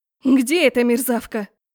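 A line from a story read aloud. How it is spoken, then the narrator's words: Angry bark. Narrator (Russian): рявкнула она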